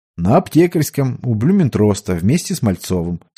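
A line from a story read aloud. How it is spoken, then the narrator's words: Calm report. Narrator (Russian): совершенно спокойно доложил Ушаков, словно ничего необычного и не происходит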